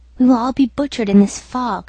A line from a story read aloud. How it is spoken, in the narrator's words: murmured